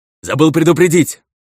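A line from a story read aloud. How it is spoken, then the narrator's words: Shouted. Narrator (Russian): крикнул мне монах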